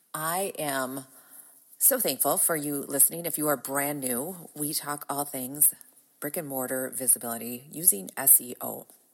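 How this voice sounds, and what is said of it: Groggy, raspy voice. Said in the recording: “My voice is a little groggy as it is allergy season ... Enjoy my raspy, sexy smoker's voice”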